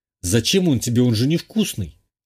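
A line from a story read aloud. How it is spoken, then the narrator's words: Snorting. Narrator (Russian): хмыкнул я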